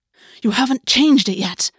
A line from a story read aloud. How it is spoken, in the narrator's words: Augus hissed